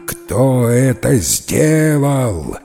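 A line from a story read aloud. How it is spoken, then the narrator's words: Terrible roar. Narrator (Russian): Заревел он страшным голосом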